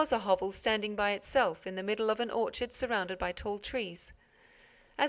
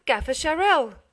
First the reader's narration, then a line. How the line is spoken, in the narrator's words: cried the mayor